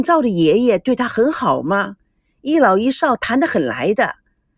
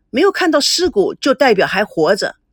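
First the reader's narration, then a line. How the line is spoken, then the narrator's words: Sudden, loud. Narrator (Chinese): 赵保国突然大声地说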